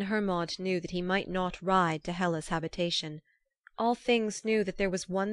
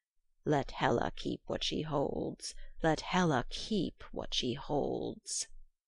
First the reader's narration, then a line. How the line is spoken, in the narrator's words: she went through the world croaking